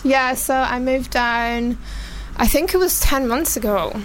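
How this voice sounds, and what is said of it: Strong, soothing Glaswegian Scottish accent. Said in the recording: “I think your accent really... Oh, it's so soothing... a little bit more soothing... proper Glaswegian... we basically love your accent. Yeah. However strong... I should have known from the accent. West Coast baby.”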